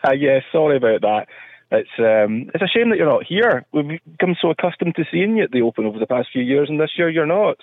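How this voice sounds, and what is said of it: Scottish accent. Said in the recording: “the Scottish accent”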